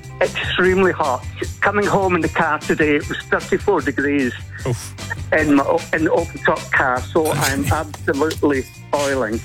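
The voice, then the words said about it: Scottish Stirling accent. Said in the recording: “it's a Stirling accent”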